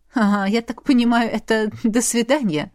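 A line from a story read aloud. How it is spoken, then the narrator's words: Chuckling laugh. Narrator (Russian): хохотнул Эйвид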